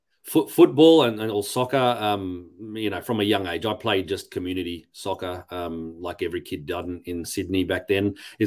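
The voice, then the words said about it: Australian accent. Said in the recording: “my Aussie accent. There's no Greek accent”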